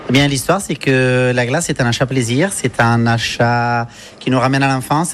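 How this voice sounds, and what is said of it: Italian accent speaking French. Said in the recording (French): “accent là, on l'entend, c'est pas l'accent provençal ça ? ... c'est un accent italien en effet”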